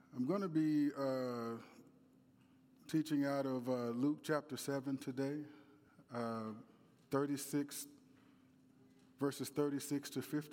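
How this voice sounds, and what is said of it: Strained voice from sore throat. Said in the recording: “my voice is not the, the best. I've been battling a bit of a sore throat.”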